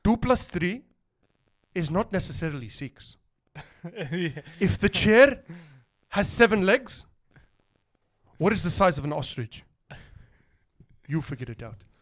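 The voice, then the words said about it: Imitates another person's accent. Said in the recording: “that's his accent”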